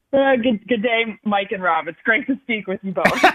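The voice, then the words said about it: Poor put-on Australian accent. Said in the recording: “I was going to say something in an Australian accent ... Don't quit your day job. ... I'm a little worried about your accent right there.”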